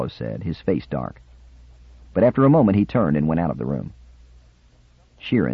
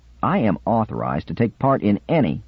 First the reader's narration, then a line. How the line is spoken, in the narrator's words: Cubello began stiffly